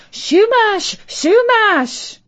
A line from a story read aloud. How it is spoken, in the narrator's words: shouting